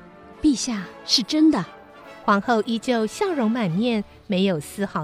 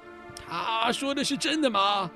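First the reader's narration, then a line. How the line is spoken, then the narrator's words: King, stern then hesitant. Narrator (Chinese): 国王厉声呵斥，有些迟疑地质问皇后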